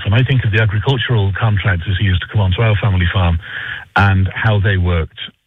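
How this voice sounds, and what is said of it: Speaks with a distinctive accent. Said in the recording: “my funny accent”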